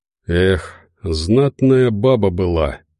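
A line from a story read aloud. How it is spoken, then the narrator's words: Sighing. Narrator (Russian): вздохнул Тихий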